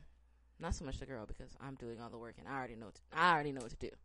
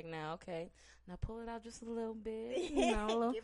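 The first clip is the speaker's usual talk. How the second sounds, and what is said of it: Sultry, seductive voice. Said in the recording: “put your sexy voice on”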